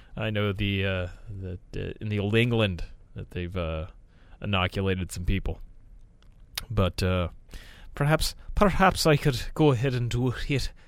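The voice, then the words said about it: Put-on Irish accent. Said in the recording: “I started going Irish. I was gonna go with like some kind of British accent. ... I started coming out of the gate already Irish. I already fucked it up.”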